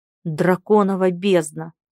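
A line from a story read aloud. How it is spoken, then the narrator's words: Displeased growl. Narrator (Russian): недовольно зарычал муж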